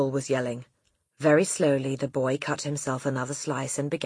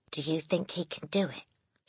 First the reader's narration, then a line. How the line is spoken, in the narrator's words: she whispered to Lavender